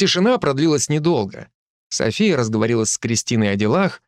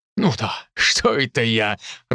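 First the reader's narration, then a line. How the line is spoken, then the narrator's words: Loud laughter. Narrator (Russian): расхохотался тот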